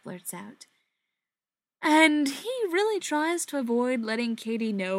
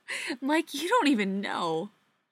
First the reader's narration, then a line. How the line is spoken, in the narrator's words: she says, still laughing